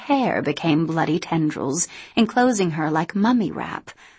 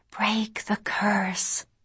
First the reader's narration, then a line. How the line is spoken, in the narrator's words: The old lady was whispering